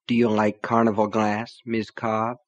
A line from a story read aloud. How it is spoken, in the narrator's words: asked softly